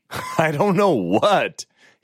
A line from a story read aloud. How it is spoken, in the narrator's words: he said with a chuckle